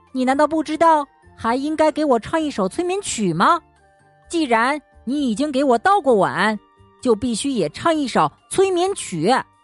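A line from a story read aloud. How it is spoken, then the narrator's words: Calling out. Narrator (Chinese): 小兔子叫道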